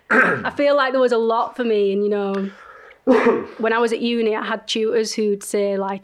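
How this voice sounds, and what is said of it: Strong Leeds Northern English accent. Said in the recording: “Leeds... my strong accent”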